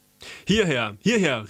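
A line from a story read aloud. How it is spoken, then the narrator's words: Calling out. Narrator (German): rief uns der Fremde zu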